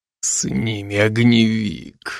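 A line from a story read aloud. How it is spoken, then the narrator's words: Hoarse wheeze. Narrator (Russian): прохрипел Райзен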